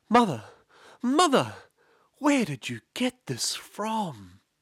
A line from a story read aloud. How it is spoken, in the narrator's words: he cried out to his mother